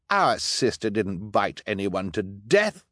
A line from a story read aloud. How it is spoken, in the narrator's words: Violet said indignantly